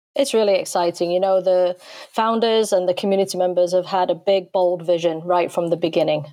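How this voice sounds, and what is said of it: English accent. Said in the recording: “you're from England, obviously. I love the accent.”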